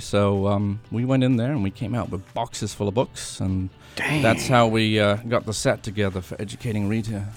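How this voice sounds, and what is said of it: Bad put-on British accent. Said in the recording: “that terrible British accent”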